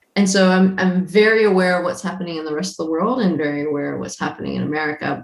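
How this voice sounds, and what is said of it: American accent. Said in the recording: “I'm not a Kiwi. You can tell by my accent. So I'm from America originally.”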